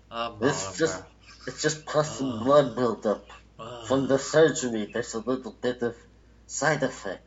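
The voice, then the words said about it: Mumbling impression, like gravy under lip. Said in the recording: “my best Marlon Brando impression while my allergies are affecting me ... Marlon Brando always sounds like he's holding gravy under his bottom lip”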